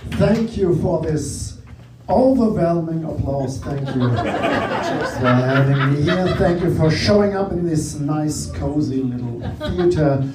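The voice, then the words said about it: German accent. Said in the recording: “my accent gives it away... I'm from Germany. I'm a German comedian”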